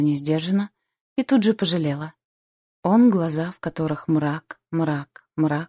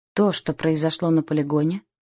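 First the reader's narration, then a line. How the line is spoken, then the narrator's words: Very gloomy. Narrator (Russian): проговорил совсем мрачно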